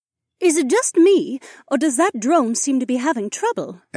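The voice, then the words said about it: Refined accent, character voice. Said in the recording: “in her refined accent”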